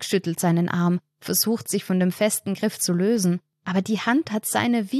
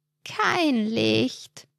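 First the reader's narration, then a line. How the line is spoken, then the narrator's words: Croaking voice close by. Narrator (German): krächzt eine Stimme dicht neben ihm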